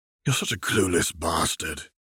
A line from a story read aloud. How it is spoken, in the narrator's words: he grumbled